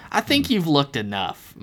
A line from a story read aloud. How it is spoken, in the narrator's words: Myrtle sneered